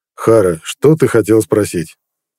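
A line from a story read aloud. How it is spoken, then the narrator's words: Calm. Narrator (Russian): спокойно проговорил Нед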